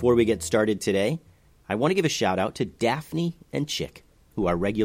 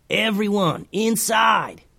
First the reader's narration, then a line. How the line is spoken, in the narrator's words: yelled Momo